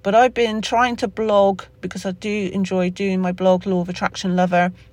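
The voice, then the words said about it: Somerset English accent. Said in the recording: “That's my Somerset accent coming out in it there, real and raw again.”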